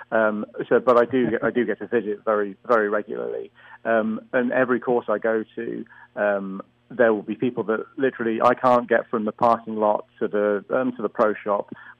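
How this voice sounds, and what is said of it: Non-American accent. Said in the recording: “most people can tell from my accent, I'm not from the US”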